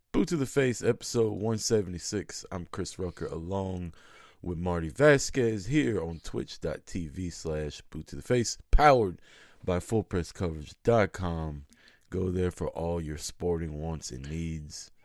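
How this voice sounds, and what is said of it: Cracky voice. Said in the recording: “my voice is cracky as hell.”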